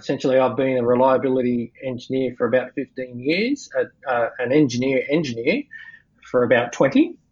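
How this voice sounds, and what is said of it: Australian accent. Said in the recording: “people probably guess that I'm based in Australia from the accent”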